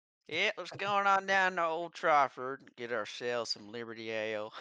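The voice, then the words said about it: Put-on redneck accent. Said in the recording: “I feel like saying that with the redneck accent.”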